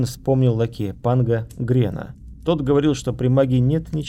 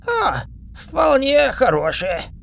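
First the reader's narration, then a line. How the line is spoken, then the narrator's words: Hoarse rasp. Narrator (Russian): прохрипел он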